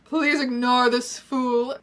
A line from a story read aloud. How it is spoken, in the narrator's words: Draco drawled smugly